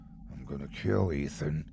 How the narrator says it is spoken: he murmured

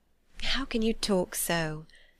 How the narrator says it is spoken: said Jane, faintly smiling

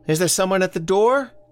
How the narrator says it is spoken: From the kitchen, Elsie called out

